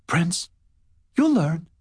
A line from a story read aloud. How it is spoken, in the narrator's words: he'd confided in a shy, halting voice